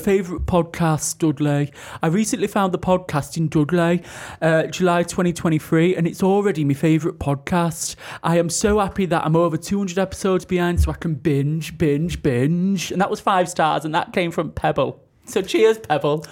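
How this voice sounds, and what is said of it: Put-on Dudley accent. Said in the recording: “I can do Dudley ... Love the review, hated the accent.”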